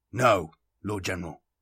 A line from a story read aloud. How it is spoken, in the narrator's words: the Astartes intoned, his voice as much a mechanical rumble as the first one's had been